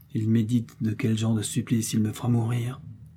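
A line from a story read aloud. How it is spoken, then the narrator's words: Muttered quietly to himself. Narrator (French): se dit tout bas D'Artagnan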